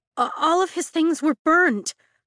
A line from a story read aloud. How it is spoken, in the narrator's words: Sloane sputters